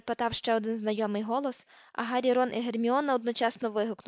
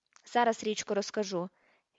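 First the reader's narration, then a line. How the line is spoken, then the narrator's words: Plain. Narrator (Ukrainian): відповів Фред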